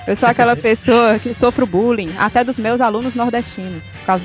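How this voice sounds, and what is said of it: Brazilian northeastern accent. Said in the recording (Portuguese): “meu sotaque nordestino ... cearês”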